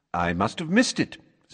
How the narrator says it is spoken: said Dumbledore cheerfully

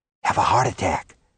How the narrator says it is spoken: Zebul whispered

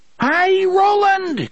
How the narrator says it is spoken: Cuthbert screamed deliriously

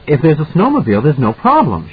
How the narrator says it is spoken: she said excitedly

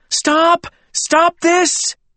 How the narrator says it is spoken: Gwendolyn was running down the center aisle, shouting

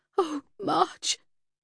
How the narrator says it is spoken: sobbed

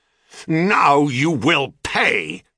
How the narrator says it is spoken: roared

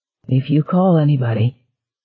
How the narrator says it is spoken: she said, her voice still wavering a little, but almost normal

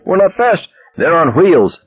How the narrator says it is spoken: yelled back

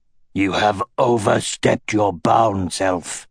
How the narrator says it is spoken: he growled, also in the ancient language

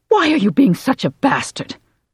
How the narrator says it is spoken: Kim asked angrily

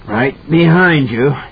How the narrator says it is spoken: he panted through his bloody grin

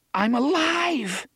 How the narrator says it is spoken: half of his mind rejoiced, screaming with relief

